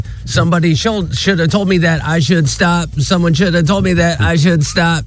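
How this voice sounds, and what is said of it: Imitates another person's voice. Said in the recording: “Diddy impersonation”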